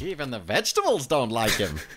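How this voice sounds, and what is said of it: Imitates another person's voice. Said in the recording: “my terrible Frank Oz impression”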